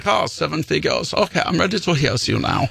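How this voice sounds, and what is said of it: Put-on dopey German accent. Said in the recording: “I gave Lars a German accent ... Whatever accent makes him sound dopey”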